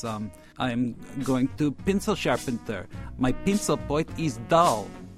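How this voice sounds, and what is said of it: Put-on Russian accent. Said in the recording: “she has this wonderful accent, having just come from Russia. Give us a taste of her her accent.”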